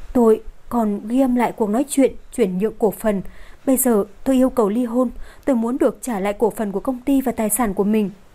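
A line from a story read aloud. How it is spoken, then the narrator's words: Hesitant, trembling, slow. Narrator (Vietnamese): dường như cô ấy có chút khó mở miệng, kiềm chế cơ thể đang run rẩy, chậm rãi nói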